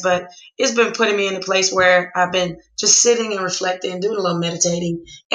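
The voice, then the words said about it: Sick, under-the-weather voice. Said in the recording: “I've been pretty under the weather today, as you probably can tell by my voice”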